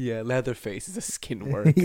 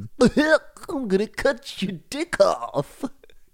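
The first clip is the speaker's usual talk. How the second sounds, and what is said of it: Poor imitation of Goofy's voice. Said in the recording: “That's not a good Goofy, is it?”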